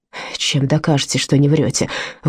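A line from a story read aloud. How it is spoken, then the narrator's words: Hostile question. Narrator (Russian): враждебным тоном спросил Мартин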